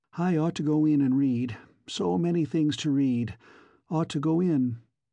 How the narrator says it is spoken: she sighed

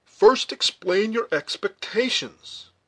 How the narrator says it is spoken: cried Hayward

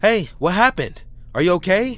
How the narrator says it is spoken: again I shout

